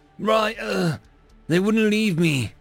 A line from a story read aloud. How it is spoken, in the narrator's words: he stammered